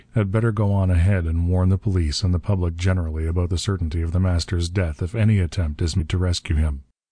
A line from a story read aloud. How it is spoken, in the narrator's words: he said coldly